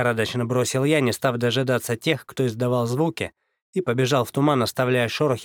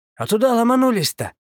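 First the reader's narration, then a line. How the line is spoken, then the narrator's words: Exclaiming. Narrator (Russian): воскликнул Ильиц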